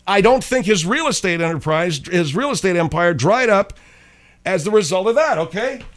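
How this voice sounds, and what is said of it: Yelling loudly. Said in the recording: “Why are you yelling?”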